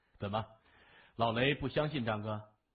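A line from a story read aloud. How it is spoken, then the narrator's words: Laughing. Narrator (Chinese): 谢文东笑着说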